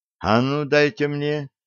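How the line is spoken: Said in muffled voice. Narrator (Russian): глухо сказал Коля

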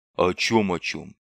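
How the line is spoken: Pessimistic grumble. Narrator (Russian): проворчал Бибик уже далеко не оптимистично

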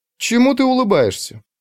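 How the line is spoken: Joyful question. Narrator (Russian): радостно спросила Ульрика

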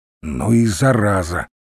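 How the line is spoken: Through gritted teeth. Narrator (Russian): процедил Русинов

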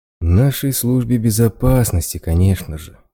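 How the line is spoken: Sighing. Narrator (Russian): вздохнул

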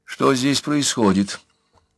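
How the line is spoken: Forced calm question. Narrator (Russian): как могла спокойно спросила Анна

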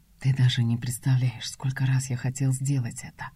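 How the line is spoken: Hot whisper in ear. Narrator (Russian): Жаркий шепот опаляет ухо

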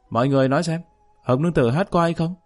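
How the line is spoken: Shouting. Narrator (Vietnamese): hét lên

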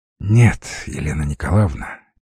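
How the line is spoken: Heavy sigh. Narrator (Russian): тяжело вздохнул Кротов

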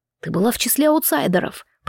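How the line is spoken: Through gritted teeth. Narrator (Russian): процедил Эндал

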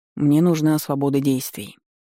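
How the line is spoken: Calm explanation. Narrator (Russian): спокойно пояснил

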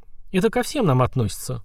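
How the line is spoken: Sighing. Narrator (Russian): вздохнул Киртал

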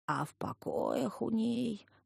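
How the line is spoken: Old man's soulful howling voice. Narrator (Russian): проникновенным, завывающим голосом вещал дедок

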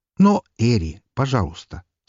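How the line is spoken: Calm request. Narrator (Russian): спокойно попросил ее

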